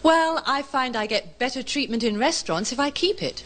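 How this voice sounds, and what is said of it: English accent. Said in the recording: “Originally from England, but you have not lost your English accent”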